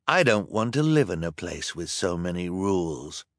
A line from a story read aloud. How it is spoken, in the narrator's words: Hector replied in a quiet voice